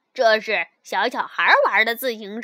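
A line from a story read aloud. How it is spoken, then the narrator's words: Mocking. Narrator (Chinese): 温亚嘲笑他说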